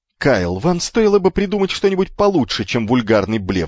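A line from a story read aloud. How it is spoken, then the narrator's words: Shouted. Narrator (Russian): закричал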